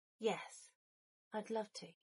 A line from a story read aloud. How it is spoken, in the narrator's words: Potter breathed, a smile still in place